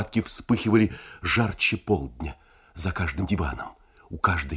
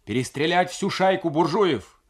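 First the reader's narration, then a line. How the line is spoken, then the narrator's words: Insistent shouting, several voices. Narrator (Russian): Некоторые с подозрительной настойчивостью кричали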